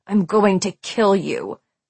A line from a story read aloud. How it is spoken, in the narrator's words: Scott growled at Patch